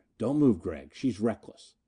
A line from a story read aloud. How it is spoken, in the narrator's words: Snap murmured in my ear